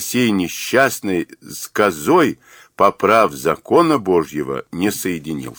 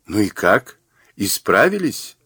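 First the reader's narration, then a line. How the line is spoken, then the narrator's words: Question after laughing. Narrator (Russian): отсмеявшись, спросила Джан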